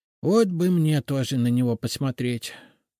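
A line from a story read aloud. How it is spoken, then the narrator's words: Envious sigh. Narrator (Russian): с завистью вздохнул Фома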